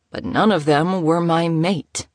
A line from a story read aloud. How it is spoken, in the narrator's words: he groaned